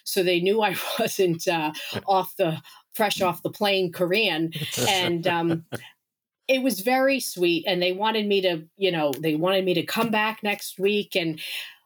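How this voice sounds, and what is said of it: New York accent. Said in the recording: “I've got a New York accent.”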